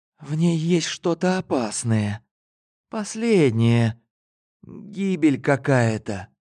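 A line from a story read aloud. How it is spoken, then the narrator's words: Frightened whisper. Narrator (Russian): Дробовский испуганно прошептал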